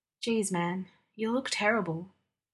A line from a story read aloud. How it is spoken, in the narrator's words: he said quietly